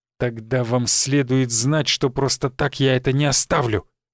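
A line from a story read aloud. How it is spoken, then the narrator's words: Spiteful, through gritted teeth. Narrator (Russian): злобно процедил преподаватель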